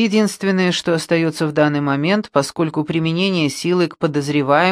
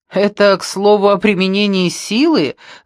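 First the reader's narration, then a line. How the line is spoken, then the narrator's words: Laughing. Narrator (Russian): засмеялся Линли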